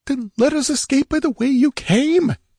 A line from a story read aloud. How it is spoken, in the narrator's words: exclaimed Murillo